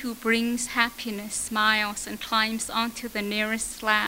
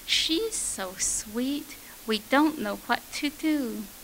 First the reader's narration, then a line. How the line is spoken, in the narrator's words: we murmur